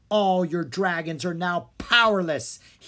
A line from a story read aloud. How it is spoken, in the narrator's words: he exclaimed